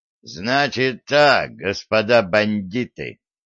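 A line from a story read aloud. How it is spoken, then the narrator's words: Furious growl. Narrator (Russian): прорычал Федот, свирепея на глазах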